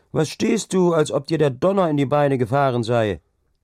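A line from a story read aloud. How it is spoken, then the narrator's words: Called out. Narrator (German): rief Hauke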